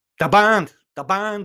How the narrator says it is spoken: shouted

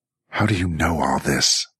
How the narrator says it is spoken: Jackie snarled

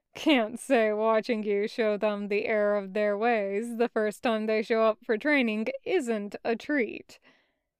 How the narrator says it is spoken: Bismuth said with a soft huff of a chuckle

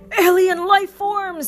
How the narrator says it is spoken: Buzz cried

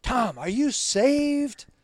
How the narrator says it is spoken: They yelled it across the fence more than once

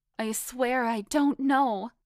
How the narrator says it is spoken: I pleaded

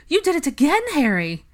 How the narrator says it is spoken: Narcissa ... exclaiming

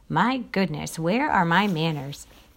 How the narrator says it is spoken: Mayor Little sputtered

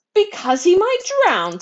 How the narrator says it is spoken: squealed Mrs

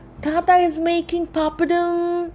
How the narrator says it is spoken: Roja yells

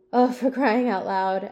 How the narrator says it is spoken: groaned

